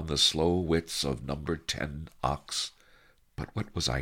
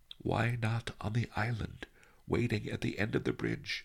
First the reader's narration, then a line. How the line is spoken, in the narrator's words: he had muttered